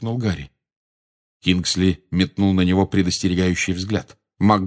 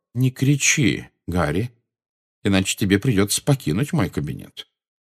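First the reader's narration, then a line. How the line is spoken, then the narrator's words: Calm. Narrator (Russian): спокойно произнес Дамблдор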